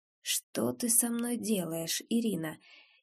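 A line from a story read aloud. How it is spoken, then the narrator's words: Exhausted rhetorical whisper. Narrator (Russian): этот измученный, кажется, риторический шепот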